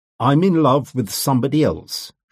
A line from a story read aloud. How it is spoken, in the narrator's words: she said